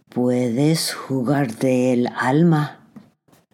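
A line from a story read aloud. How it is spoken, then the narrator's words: Whispered. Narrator (Spanish): El diablo susurró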